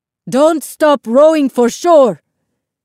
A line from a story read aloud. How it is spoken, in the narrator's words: Isabel's grandfather yelled to everyone else